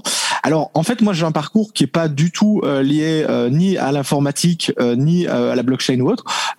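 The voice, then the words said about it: Slight Belgian French accent. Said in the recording (French): “on l'entend un petit peu à ton accent ... Je suis de Belgique, euh, Belgique francophone, donc euh, c'est ça le petit accent que, que l'on peut entendre”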